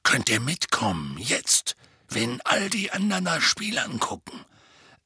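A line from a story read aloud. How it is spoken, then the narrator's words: Whispered. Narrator (German): flüsterte er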